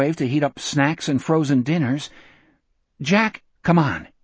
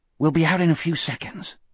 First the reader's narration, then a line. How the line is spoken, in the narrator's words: Jack whispered back